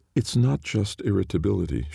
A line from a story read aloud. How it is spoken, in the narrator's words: pointed out, still somehow keeping her voice calm